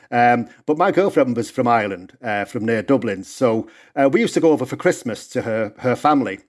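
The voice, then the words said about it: Northern English accent. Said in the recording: “obviously you can hear from my accent, I'm from England originally, the north of England”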